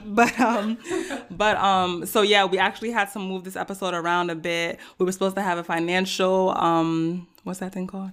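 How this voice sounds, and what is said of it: Hoarse, deep voice. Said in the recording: “excuse my voice, I'm a little bit under the weather. I'm a little hoarse, sounding a little bit deep”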